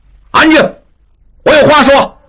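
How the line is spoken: Loud. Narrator (Chinese): 应季从弟应震大声说

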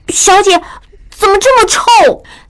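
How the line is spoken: Startled cry. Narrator (Chinese): 明珠惊叫道

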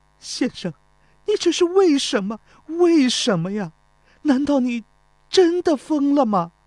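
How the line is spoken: Weeping, tearful. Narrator (Chinese): 钟离秋不住地流泪，哭着说

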